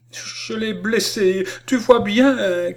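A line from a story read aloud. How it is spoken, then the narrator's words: Broken, choked cry. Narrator (French): cria-t-elle d'une voix entrecoupée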